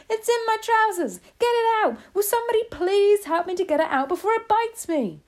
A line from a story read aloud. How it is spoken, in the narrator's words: the stupid cook still shouting